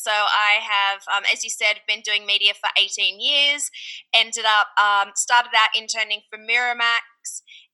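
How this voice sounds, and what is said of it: Australian accent. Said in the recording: “you might notice from my accent that I'm Australian”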